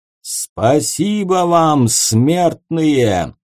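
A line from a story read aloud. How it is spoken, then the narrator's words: Booming voice. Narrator (Russian): громогласно произнес он человеческим голосом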